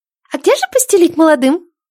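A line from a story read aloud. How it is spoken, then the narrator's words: Timid little girl's squeak. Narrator (Russian): Пискнул робкий девчончий голосишка с шестка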